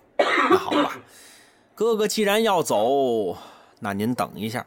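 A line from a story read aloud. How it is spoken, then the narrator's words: Sighing. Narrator (Chinese): 柴大官人也是叹了口气呀，说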